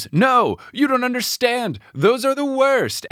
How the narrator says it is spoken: Cece screams

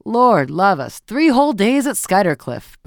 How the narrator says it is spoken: Beaufort was saying in his loud, sneering voice

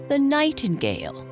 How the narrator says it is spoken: said the old bullfinch scornfully

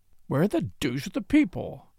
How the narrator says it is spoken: he muttered

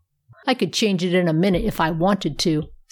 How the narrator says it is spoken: said the polar bear with a chuckle

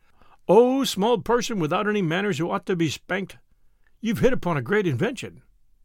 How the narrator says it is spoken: the head chief of the tribe of Tegumai cried and said and sang

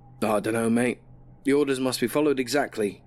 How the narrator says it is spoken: Jimmy said

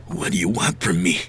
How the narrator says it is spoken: He whispered

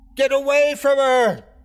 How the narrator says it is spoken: I screamed

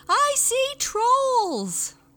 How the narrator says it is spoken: The human being screamed

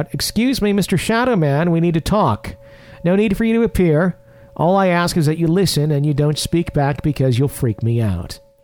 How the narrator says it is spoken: called out

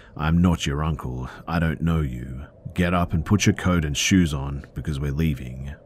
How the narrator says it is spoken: stated very coldly

